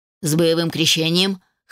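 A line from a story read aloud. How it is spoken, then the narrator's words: Smirking grunt. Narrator (Russian): хмыкнул Хоторн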